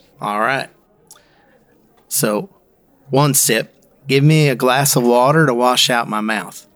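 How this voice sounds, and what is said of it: Put-on Appalachian North Carolina accent. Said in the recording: “That accent is what? ... Appalachian, North Carolina ... That is a Yankee trying to pretend to do Appalachian, North Carolina.”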